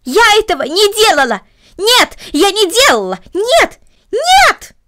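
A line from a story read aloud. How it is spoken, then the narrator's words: Loud scream. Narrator (Russian): громко закричала Корнелли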